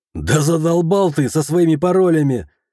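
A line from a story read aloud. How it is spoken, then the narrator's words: Laughing. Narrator (Russian): рассмеявшись, сказал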